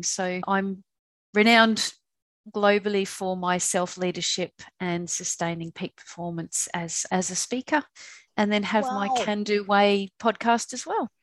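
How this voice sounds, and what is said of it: Australian accent. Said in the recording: “Where's that accent? ... I'm originally from Perth, Western Australia”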